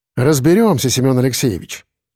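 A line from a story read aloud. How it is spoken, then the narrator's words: Calm. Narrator (Russian): ответил я спокойно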